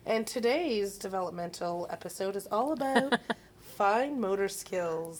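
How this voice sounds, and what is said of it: Professional-sounding teacher voice. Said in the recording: “Very professional sounding there... Did you like that voice? That was my teacher voice. That was my ... teacher voice.”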